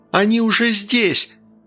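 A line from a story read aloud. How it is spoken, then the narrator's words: Shout. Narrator (Russian): выкрикнула Полина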